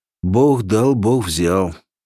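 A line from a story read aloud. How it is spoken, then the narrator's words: Sighing. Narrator (Russian): вздохнув, говорили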